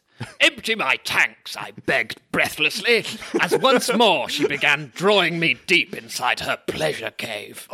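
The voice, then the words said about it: Army major character voice. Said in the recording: “do this voice ... because they're majors, I'm going to do it like this.”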